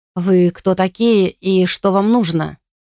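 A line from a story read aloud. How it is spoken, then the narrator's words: Menacing question. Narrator (Russian): грозно спросил мужчина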